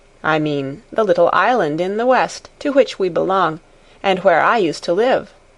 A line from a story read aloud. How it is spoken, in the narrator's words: said Daddy